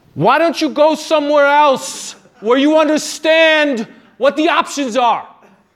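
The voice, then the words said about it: Thick New York accent. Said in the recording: “in a thick New York accent ... Such an authentic accent.”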